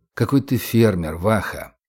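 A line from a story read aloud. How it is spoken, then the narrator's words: Said quietly. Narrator (Russian): тихо сказал Сергей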